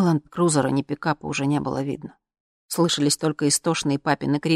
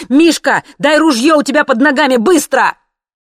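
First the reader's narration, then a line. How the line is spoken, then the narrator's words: Bark. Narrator (Russian): Сережа рявкнул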